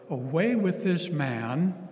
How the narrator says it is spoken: they all cried out together

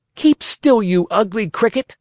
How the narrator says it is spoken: cried Pinocchio

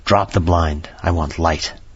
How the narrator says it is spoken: hissing indraw of breath, and he said to me in a sharp whisper

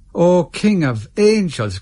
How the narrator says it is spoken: cried an old woman

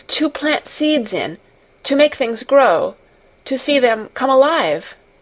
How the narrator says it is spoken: Mary faltered

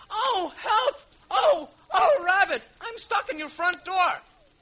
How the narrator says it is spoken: Winnie the Pooh cried

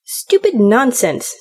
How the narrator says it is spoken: said the other angrily

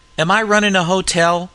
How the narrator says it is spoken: roared Jerry Wood

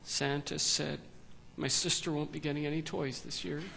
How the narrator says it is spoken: In almost a whispered tone, Maddie sadly, but very matter-of-factly, said

